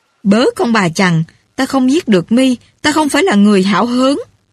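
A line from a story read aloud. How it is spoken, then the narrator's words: Furious loud cursing. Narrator (Vietnamese): Tiết Côn phừng phừng nổi giận, mắng hét âm xòm, chỉ mặt Trung Hậu mà nói rằng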